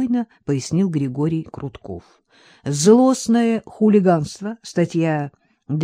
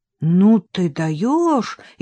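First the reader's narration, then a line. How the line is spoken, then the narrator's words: Frightened. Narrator (Russian): испуганно произнес Вадим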